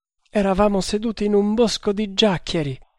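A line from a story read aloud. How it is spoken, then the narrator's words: Sobbing wretch. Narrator (Italian): disse il miserabile, continuando a singhiozzare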